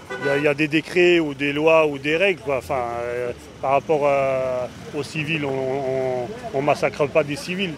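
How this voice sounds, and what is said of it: Strong French accent. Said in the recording (French): “Il a un accent bien franchouillard.”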